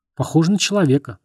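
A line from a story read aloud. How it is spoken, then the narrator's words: Plain. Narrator (Russian): сказал помощник шерифа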